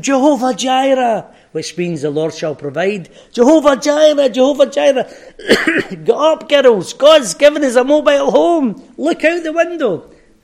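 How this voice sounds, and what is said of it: Shouting excitedly. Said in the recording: “I'm shouting”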